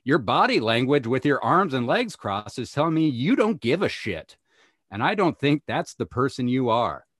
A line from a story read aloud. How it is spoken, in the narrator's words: T decided he would yell out